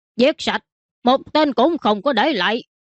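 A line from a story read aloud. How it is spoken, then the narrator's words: Loud. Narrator (Vietnamese): lớn tiếng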